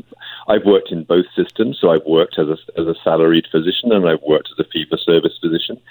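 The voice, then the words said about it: Noticeable unusual accent. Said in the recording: “as a family doctor in both British Columbia and the UK, you can tell from my funny accent”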